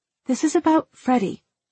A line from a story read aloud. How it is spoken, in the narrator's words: she said, her tone terse, restrained